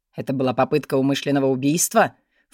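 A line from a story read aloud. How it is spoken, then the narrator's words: Snort. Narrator (Russian): фыркнул он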